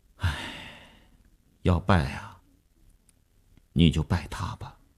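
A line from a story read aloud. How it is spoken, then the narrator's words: Helpless sigh. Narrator (Chinese): 那个钢琴师一声无奈的叹息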